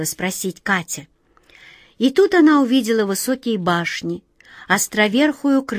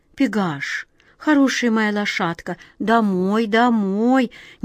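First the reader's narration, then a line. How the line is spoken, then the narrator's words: Quiet command. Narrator (Russian): негромко приказала глазастик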